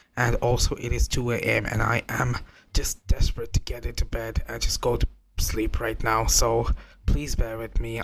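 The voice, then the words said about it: Slightly strange voice, has a cold. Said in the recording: “my voice sounds a bit strange, that is because I have a bit of a cold”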